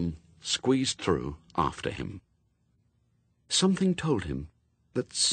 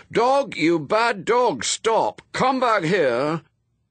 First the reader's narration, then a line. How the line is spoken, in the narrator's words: shouting clearly, loudly, and distinctly